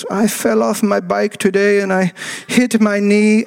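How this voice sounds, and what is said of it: Put-on Norwegian accent, sounds German. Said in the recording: “I don't know if that's a Norwegian accent. It's probably more German than anything else.”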